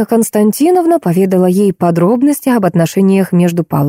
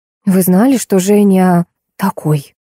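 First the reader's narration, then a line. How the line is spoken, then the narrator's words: Strained, young woman. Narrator (Russian): Наконец, выдавила из себя девушка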